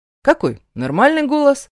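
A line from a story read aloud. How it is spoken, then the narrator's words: Cheerful reply. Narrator (Russian): Бодро отвечаю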